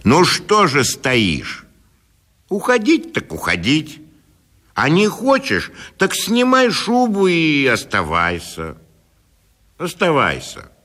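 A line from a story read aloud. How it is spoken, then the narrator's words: Stern vexed shout. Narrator (Russian): досадуя на свою бесхарактерность, он крикнул ей сурово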